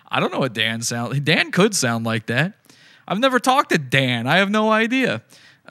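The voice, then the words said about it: Speaks with a Virginia accent. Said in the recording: “I have a Virginia accent. I'm doing it already... I sound like a Virginian.”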